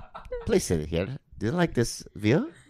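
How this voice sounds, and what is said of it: Thick put-on waiter accent. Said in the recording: “Your accent a little thick ... the accent was a little bit...”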